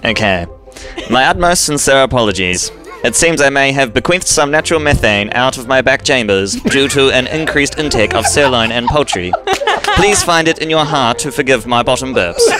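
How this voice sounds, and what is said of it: 1950s TV announcer-style accent. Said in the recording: “The accent is so like 1950s TV.”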